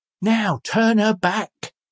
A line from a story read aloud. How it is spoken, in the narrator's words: exclaimed the old man